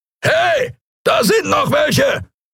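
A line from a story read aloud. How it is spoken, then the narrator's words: Roaring Skria voice. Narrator (German): brüllte eine Skria-Stimme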